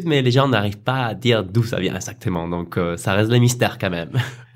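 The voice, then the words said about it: Light South American accent. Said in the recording (French): “il y a un léger accent ... Ce n'est pas du tout de l'autotune ... Ça sent l'Amérique du Sud”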